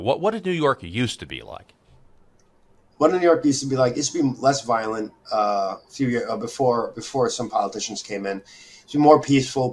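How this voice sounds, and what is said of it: Native New York accent. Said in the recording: “I'm a native New Yorker. You can tell by my accent. ... Okay, yeah, I could tell.”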